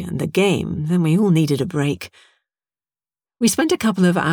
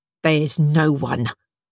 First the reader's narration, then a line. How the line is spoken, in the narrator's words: snapped, a little of the previous day's mania rising